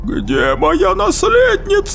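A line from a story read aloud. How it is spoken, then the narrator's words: Wailing yell. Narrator (Russian): завопила губернаторша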